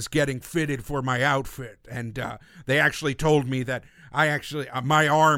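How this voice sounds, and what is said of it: Usual voice. Nothing is said of it.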